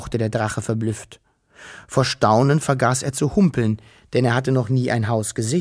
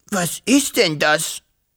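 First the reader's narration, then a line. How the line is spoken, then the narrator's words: Hissing. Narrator (German): fauchte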